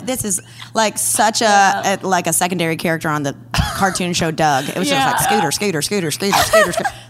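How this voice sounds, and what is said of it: Slight southern twang. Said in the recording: “The way you say Scooter too, I think it really helps. ... the southern twang. ... A little bit of southern twang.”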